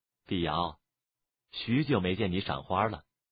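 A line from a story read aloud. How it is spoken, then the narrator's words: Calm, indifferent. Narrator (Chinese): 蒙面女子淡淡的说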